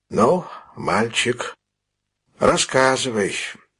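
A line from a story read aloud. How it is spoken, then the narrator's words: Gentle, affectionate. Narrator (Russian): ласково сказал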